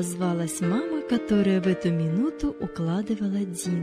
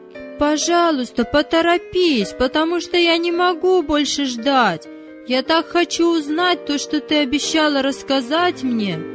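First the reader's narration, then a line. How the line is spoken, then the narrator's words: Shouted. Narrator (Russian): прокричал Давид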